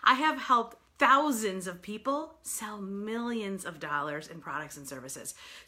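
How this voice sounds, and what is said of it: New York accent. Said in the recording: “I am a native New Yorker, so pardon my crazy accent”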